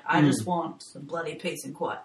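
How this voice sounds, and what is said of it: Deep bogan Australian accent. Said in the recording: “This is my deep, bogan Australian accent.”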